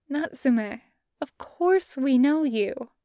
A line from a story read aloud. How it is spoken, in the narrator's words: Ogata says, in a kind, careful voice